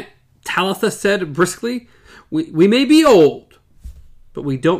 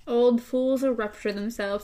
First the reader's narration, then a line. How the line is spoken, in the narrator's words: Eddie muttered